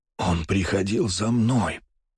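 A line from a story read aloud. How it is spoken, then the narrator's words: Strained wheeze from wound. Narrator (Russian): прохрипел Столбов, потому как из-за раны и перевязки ему было неудобно говорить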